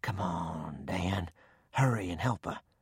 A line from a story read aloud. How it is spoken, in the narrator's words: In a whisper, I said